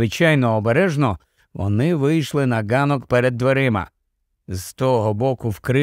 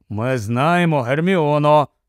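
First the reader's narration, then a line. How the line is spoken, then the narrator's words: Grumbled. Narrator (Ukrainian): буркнув Рон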